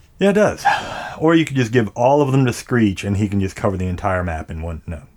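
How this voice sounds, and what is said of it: Slightly impaired, odd-sounding speech. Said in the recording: “if I sound a little weird ... I'm having a little bit difficulty speaking right now ... So if I sound a little funny”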